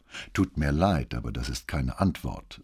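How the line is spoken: Said calmly. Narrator (German): sagte Brunetti ruhig

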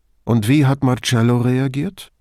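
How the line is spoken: Plain question. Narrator (German): fragte Brunetti

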